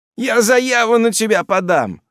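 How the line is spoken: Threatening, squealing in pain. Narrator (Russian): угрожает мне валенок, повизгивая от боли

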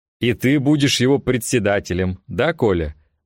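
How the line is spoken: Guffaw. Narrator (Russian): захохотал Пахомов

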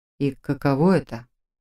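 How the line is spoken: Unusually quiet question. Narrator (Russian): Непривычно тихо поинтересовался Фарлак

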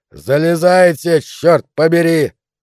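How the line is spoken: Screaming. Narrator (Russian): завопил Калхаун

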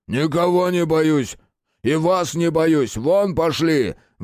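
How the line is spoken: Furious roar. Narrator (Russian): взревел дубильщик

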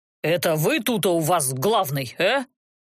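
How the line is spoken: Menacing question. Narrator (Russian): Грозно поинтересовался их предводитель

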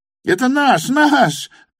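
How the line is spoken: Shrill squeal nearby. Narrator (Russian): завизжал подле голосок Липутина

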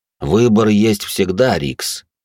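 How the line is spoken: Plain. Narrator (Russian): сказал пламенеподобный

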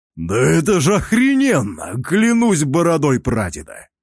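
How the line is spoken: Deep bass voice. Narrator (Russian): бармен пробасил

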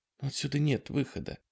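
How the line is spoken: Whisper. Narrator (Russian): прошептала Дана

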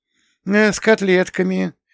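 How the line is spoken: Dejected, forced-out voice. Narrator (Russian): упавшим голосом вытолкнула хорошистка

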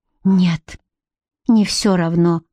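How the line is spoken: Drained, forced, mournful. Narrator (Russian): выдавил Гарик, внезапно обмякнув, словно ярость и гнев покинули его, оставив лишь опустошение и тоску

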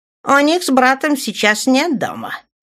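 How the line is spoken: Sharp. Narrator (Russian): резко проговорил Светлый

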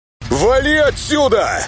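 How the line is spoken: Yelling again. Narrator (Russian): Снова заорал Темный

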